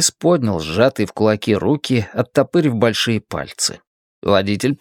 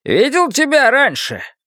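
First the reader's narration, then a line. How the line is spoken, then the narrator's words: Shouting over engine noise. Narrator (Russian): прокричал водитель, перекрывая рев мощного двигателя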